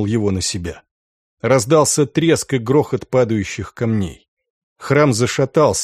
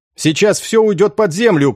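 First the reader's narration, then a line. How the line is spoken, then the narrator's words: Shouting. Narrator (Russian): крикнул Энгель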